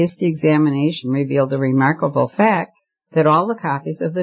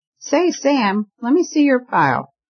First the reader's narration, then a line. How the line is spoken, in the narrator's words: he called out